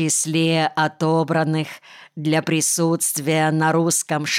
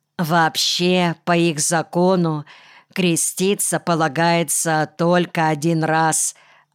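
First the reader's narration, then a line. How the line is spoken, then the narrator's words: Plain. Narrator (Russian): ответил Кымыкэй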